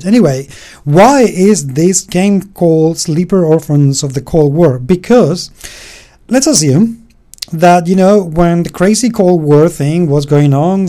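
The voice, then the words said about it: Speaks with a noticeable accent. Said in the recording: “I have an accent”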